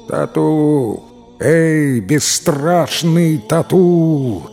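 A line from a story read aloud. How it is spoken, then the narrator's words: Booming voice. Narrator (Russian): прогремел голос Тагрула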